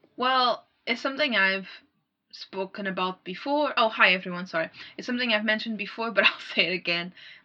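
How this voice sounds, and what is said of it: Accent with swallowed consonants. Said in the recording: “My accent, I'm really sorry ... I swallow consonants, I missay vowels ... my accent sometimes makes it hard for people to understand what I'm saying ... I think your accent's certainly nicer than the South African accent”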